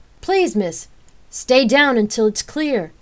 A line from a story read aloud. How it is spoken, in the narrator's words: Rain shouted as the frantic screams of the crowd were deafening